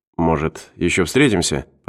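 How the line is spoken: Mumbling. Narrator (Russian): пробормотал Мортон

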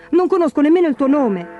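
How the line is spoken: Shouted. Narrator (Italian): gridò

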